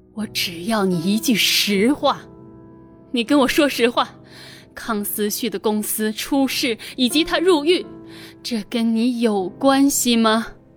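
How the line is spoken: Muffled through gritted teeth. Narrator (Chinese): 秦慕年咬了咬牙，闷声闷气的说

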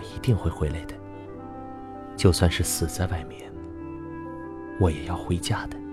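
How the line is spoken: Confused hushed voice. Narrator (Chinese): 小芝的眼神似乎很混乱，她压低了声音说

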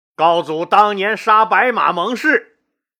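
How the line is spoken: Loud, displeased. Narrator (Chinese): 周亚夫直接就皱了眉，大声说

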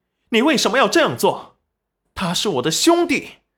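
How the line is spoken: Angry. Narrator (Chinese): 赵宝业眼神愤怒

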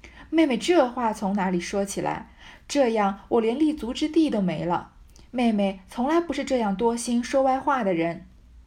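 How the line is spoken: Hurried laughing. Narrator (Chinese): 薛蟠听说，连忙笑道

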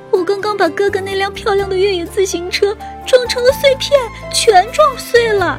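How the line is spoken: Crying. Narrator (Chinese): 小熊妹妹哭着说

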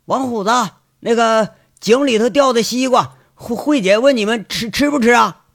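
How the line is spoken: Shout from the gate. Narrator (Chinese): 就听牧场大门口有人喊了

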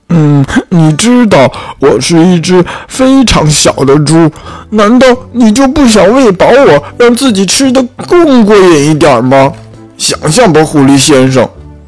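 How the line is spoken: Fox roaring. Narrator (Chinese): 狐狸吼道

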